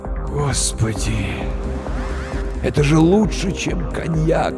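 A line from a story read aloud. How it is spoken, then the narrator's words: Blissful whisper. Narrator (Russian): Блаженствуя, прошептал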